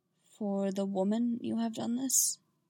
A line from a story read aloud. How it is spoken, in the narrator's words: Quietly, Yoda added